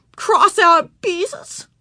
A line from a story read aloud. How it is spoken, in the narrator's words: She shouted